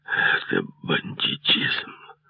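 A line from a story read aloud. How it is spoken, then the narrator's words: Hoarse wheeze. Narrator (Russian): прохрипел он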